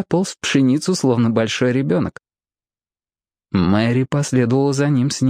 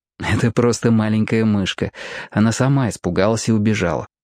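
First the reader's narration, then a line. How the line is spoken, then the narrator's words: Plain. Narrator (Russian): сказал Роб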